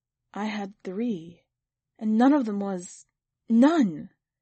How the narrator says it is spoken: The woman said in a broken voice

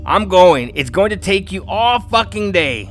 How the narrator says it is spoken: She shouted

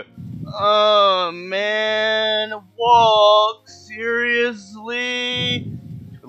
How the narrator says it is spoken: Shag and Scoob just groan and go

